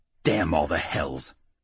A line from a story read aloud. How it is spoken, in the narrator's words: Rednail growled